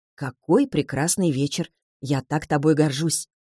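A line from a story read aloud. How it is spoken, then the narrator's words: Whispered. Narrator (Russian): шепотом произносит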